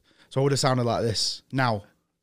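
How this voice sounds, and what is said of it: Northern English accent. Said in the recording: “a legit British accent ... I had a very northern accent ... the actual accent that I would have grown up with”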